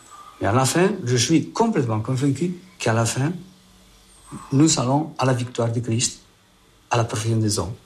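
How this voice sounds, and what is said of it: Spanish accent speaking French. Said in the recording (French): “avec tout son accent espagnol”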